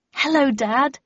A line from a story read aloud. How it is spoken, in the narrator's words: I said brightly